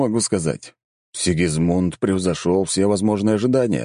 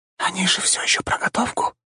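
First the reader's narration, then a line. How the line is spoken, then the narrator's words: Whisper. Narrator (Russian): прошептала Софелия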